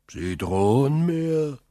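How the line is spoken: Calling out. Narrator (German): rief der Wärter

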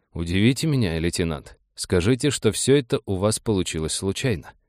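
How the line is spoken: Quietly said. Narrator (Russian): Нейв тихо сказал

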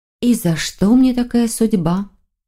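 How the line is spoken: Dejected sigh. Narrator (Russian): Маргарита сокрушенно вздохнула

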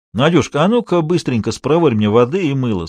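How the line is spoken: Plain. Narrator (Russian): сказал хозяин

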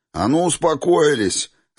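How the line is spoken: Barked. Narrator (Russian): рявкнули

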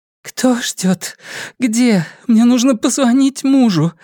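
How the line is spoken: Broken tearful voice. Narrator (Russian): выдавила она прерывающимся голосом, стыдясь своих слёз и не в силах их остановить

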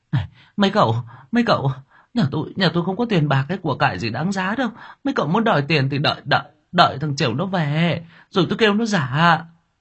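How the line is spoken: Woman hurriedly pleading. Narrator (Vietnamese): Bà Sáu liền vội vàng van xin

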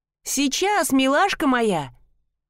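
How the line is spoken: Joyful shout. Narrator (Russian): радостно крикнула

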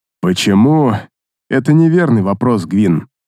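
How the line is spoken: Sighing orc. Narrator (Russian): вздохнул орк

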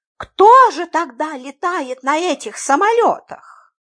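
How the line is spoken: Helpless exclamation. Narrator (Russian): Беспомощно воскликнула мисс Фридлендер

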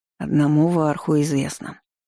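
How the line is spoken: Weary head shake. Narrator (Russian): покачал головой ректор, устало

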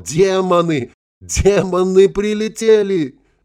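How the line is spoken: Yelling. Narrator (Russian): мужчина заорал

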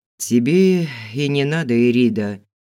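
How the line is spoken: Sigh. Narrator (Russian): вздохнул Фил

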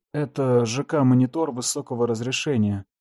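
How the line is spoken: Man's trembling voice. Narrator (Russian): сказал мужчина дрожащим голосом

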